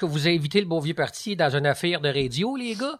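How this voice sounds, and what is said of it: Imitates another person's accent. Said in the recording (French): “mon accent de Joachim Craig, qui parlait un peu comme là ... Fait qu'il y a un accent de même.”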